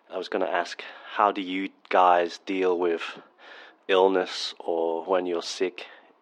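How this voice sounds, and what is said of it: Voice sounds sick. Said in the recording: “You have to excuse my voice. I currently have the flu.”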